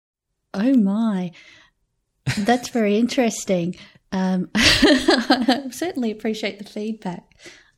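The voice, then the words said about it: Standard Australian accent. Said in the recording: “a really cute Australian accent ... in Australia my accent might just be a pretty standard one”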